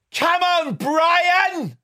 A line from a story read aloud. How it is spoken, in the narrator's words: He just kept shouting that at the top of his voice, slightly camp